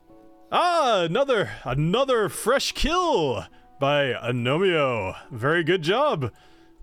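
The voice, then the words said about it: Extremely loud character voice. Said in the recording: “he's being extremely loud ... stop talking so loud”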